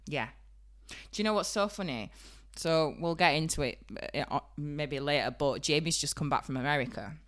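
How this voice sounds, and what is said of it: Strong Yorkshire accent. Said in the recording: “I do look better than what my voice sounds ... got the worst Yorkshire accent in the world”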